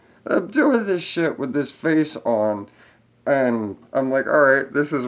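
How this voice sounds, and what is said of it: Usual voice. Nothing is said of it.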